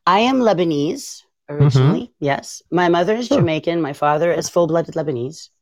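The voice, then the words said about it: Slight French-influenced accent. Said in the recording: “French educated, which is where the accent is. A lot of people are saying they hear Spanish ... I think I hide the accent well ... I enunciate a little more and my R's sound a little different”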